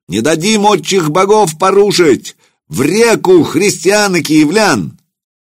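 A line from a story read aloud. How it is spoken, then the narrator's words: Distant crowd yelling. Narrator (Russian): С версту слышно, как на левом берегу орали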